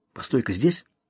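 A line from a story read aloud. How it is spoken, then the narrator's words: Whisper. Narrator (Russian): шепнул он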